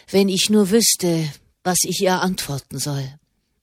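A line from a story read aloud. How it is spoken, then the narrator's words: Murmur. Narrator (German): murmelte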